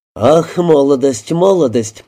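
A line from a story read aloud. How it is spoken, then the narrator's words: Ambiguous sigh. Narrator (Russian): вздохнул мистер Оберон, то ли одобряя, то ли укоряя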